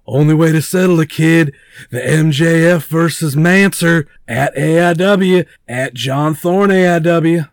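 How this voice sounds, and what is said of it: Good impression of Mance Warner. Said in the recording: “That was a very good impression.”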